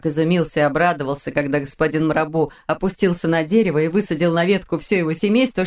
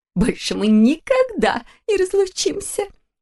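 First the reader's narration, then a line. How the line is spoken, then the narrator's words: Sobbing mother. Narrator (Russian): всхлипнула мама Мумитроля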